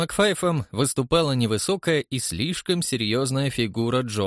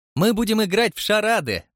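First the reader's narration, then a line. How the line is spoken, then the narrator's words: Cheerful announcement. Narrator (Russian): радостно проинформировала его миссис Притчет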